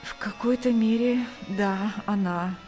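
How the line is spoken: Tired, pained reply. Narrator (Russian): устало ответил Сергей, превозмогая боль

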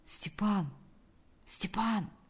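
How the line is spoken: Quiet call. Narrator (Russian): Позвал он тихо

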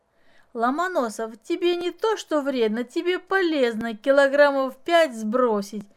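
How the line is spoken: Laughing, thin girl. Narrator (Russian): засмеялась худенькая Маша

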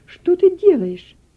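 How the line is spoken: Exclaimed. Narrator (Russian): Мария Дерхсен воскликнула

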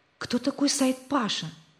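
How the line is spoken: Whispered question. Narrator (Russian): спросил Рик товарища шепотом

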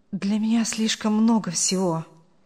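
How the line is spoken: Mumbling, young man. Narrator (Russian): пробормотал молодой человек

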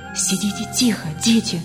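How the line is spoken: Whispered. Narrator (Russian): шепнула она

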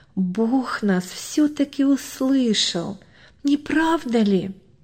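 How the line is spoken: Whisper in ear. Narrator (Russian): Машенька шепнула брату Ване на ухо

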